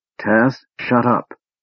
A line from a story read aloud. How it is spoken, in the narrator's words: Lorana said through clenched teeth